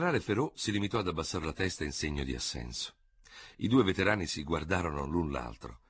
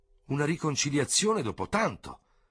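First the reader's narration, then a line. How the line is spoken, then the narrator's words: Exclaimed together. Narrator (Italian): esclamarono insieme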